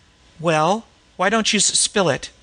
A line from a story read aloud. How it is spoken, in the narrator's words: she invited curtly